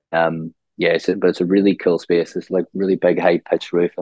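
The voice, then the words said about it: Northern Irish accent. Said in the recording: “not born and bred in Australia with the accent there”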